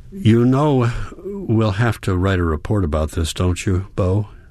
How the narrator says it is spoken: she says

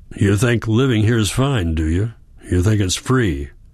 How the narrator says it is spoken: grunted after a moment

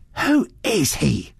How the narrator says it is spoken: she demanded fiercely

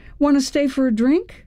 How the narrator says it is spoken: I blurted out

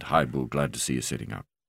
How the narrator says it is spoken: Mark said quietly

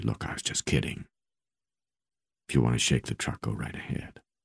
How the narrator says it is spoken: I said very softly

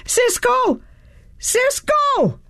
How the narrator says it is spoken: kept yelling as I ran

